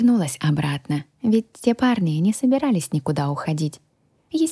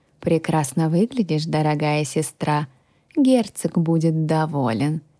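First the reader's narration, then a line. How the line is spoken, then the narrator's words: Smug snort with nasty smile. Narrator (Russian): хмыкнул он, снова улыбаясь своей мерзкой улыбочкой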